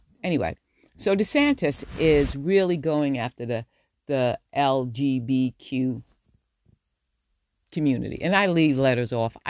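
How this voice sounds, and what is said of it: New York accent. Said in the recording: “My New Yorker accent”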